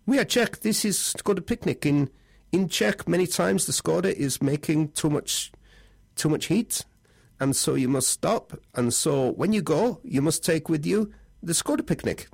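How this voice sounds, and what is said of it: Put-on Czech accent. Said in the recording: “Sorry about the accent, Czech people.”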